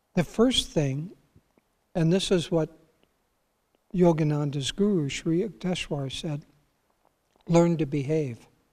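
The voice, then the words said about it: Raspy, hoarse voice. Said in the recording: “I'm sorry about this raspy throat. I didn't expect it, but here it is, unbidden.”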